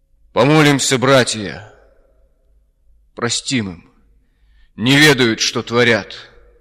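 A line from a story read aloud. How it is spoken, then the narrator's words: Solemn loud chanting. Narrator (Russian): запел он торжественно и громко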